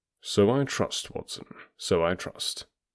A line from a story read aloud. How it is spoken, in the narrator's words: said Holmes gravely